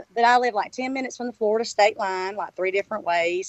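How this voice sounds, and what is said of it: Southern US accent with twang. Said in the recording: “I'm from South Georgia, as you can tell from my accent... Got that little southern twang.”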